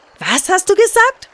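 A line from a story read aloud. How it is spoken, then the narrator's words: Excited shout. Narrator (German): schrie er dem bunten Fisch aufgeregt entgegen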